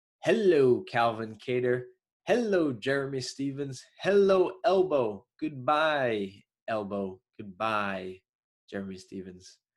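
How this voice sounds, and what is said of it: Choppy, nasally Long Island accent. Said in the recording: “I have a choppy, nasally Long Island accent”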